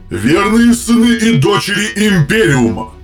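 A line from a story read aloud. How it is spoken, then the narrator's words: Booming amplified voice. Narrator (Russian): прогремел из-за врат многократно усиленный голос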